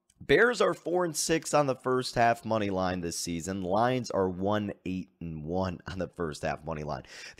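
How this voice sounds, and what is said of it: Slightly hoarse, rusty voice. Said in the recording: “my voice is a little bit hoarse here, still recovering from chanting Fire Nagy on Sunday ... we've been screaming ... the kind of rusty voice here”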